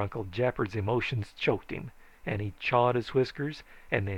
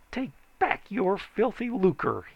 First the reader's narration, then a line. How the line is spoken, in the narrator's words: he said bitterly